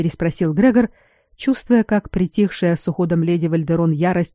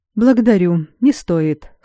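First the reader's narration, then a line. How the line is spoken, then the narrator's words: Dry refusal. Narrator (Russian): сухо отказался Грегор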